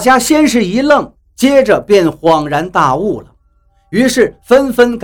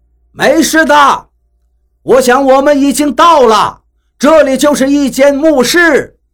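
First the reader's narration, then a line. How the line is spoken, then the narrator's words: Calling out. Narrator (Chinese): 冲我们喊道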